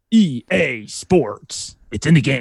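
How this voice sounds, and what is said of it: Deep announcer voice impression. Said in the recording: “Your cadence is off just slightly, but you can do it pretty good ... here's my EA Sports ... Yeah, that's pretty good.”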